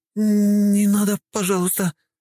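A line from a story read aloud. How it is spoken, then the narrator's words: Pleading. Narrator (Russian): взмолились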